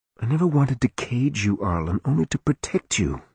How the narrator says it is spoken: Alyssa said softly

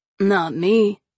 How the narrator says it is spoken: Kyle answered flatly

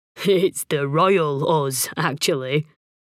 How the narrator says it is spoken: he chuckled

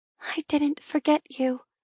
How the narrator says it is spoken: I whisper, as a tear rolls down my cheek

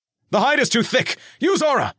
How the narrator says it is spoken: Nick yelled

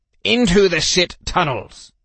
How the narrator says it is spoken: He snapped at me

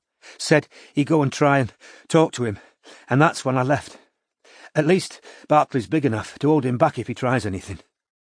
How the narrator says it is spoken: she finished breathlessly

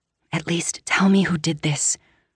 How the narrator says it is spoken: I whisper, my brows crinkling

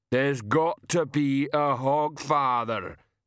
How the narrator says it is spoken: Banjo rumbled

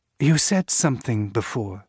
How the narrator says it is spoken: it says

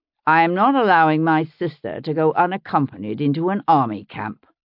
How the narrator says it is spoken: William had said firmly

